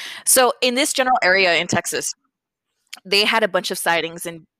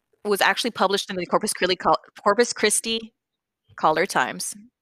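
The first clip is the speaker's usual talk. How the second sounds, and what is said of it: Fast speech, stumbling over words. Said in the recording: “I'm talking too fast. I'm stumbling over my words.”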